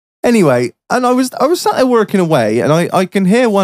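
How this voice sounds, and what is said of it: Usual voice. Nothing is said of it.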